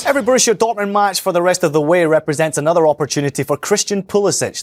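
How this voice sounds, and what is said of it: European accent. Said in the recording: “one with a trustworthy European accent”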